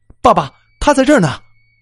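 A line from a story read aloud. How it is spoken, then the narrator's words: Weak, injured voice. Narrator (Chinese): 他的声音已经相对比较微弱了，可以听得出伤势不轻啊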